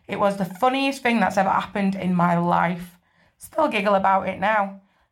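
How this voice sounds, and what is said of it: UK accent. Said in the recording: “I really love the UK accents”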